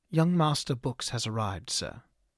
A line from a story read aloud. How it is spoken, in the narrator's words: the servant spoke evenly